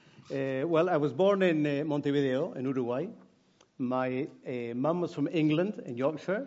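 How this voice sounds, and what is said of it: South American accent with Scottish tinge. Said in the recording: “I speak English with a heavy South American accent and Scottish coming in as well”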